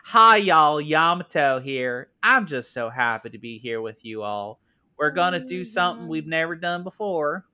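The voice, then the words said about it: Put-on Southern belle accent. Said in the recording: “why did you give her an accent? ... Even like Dolly Parton. ... Yamato is just Southern Belle.”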